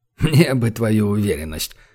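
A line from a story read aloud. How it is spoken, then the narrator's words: Admiral's skeptical snort. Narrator (Russian): хмыкнул адмирал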